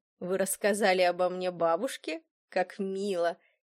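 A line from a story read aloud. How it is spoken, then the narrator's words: Mocking tone. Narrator (Russian): Издевательским тоном проговорил он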